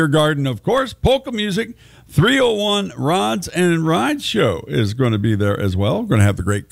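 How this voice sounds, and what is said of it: Usual voice. Nothing is said of it.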